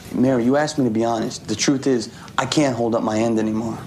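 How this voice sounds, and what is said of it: New York accent. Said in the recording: “with a New York accent there”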